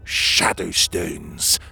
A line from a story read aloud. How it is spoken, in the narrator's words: Magborn spat